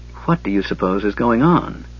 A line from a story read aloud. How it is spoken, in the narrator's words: Tanis asked softly